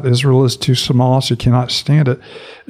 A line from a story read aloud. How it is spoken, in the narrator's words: Amos cries out